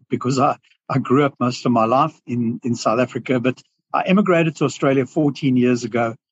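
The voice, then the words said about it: South African accent. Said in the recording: “as you can hear from my accent, you know, I have a South African accent”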